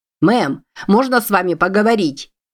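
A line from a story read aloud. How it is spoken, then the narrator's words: Shout. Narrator (Russian): крикнул он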